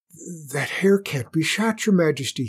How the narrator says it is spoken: muttered

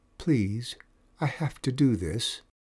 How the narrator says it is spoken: Andrela said softly

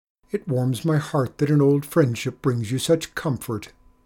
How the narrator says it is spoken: he stammered in reply

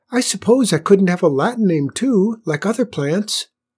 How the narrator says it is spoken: it exclaimed

